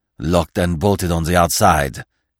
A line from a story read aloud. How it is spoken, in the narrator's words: he growled